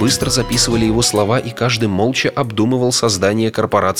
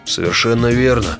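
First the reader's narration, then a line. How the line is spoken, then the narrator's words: Gloomy. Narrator (Russian): мрачно сказал Баффи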